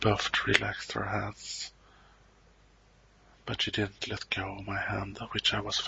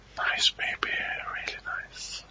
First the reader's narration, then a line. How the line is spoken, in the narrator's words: whispered